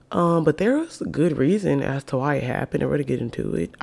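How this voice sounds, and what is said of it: Very deep, sick-sounding voice. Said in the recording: “I sound like a nigga, okay? I have a deep voice... But I have COVID right now. So that is why I sound extra Morgan Freeman-ish”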